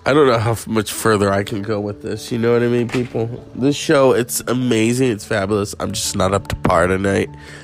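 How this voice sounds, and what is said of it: Sick, congested, unusually deep voice. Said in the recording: “severe cough, severe congestion ... My voice is really deep.”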